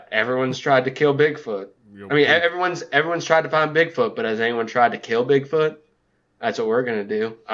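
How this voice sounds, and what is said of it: Vaguely southern American accent. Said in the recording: “now I'm just going to offend everybody with a vaguely southern accent ... With your Matthew McConaughey? Yes.”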